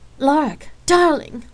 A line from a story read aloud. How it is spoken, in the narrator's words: Sal exclaimed happily